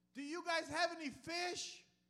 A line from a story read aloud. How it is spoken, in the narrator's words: he yells at them from on shore, he says